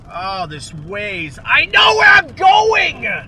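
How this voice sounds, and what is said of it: Shouting angrily. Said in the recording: “You're screaming at a computer like a snowflake.”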